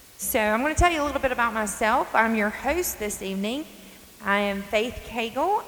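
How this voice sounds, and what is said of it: North Carolina accent. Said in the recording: “I'm from North Carolina. I'm sure many of you can catch up on my accent.”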